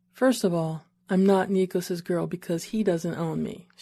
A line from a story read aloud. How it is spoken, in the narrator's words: she said, and despite her smile, her tone was serious